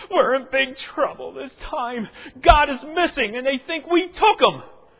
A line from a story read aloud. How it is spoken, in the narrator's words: The younger brother, crying, gasping for breath, he says